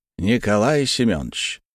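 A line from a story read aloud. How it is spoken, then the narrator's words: Solemn and serious. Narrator (Russian): заговорил, на этот раз торжественно и серьезно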